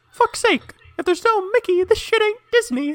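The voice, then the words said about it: Mickey Mouse cartoon voice. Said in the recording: “I don't know why you do it in a Mickey voice ... it's funnier to say it in a Mickey Mouse voice”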